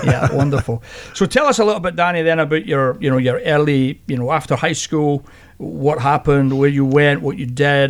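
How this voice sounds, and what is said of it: Scottish accent. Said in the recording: “even a Scotsman knows where the Inland Empire is ... this accent that everybody always teases me about is the new Sacramento accent”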